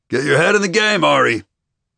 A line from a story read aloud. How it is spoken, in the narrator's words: Coach Kim's voice, his tone no nonsense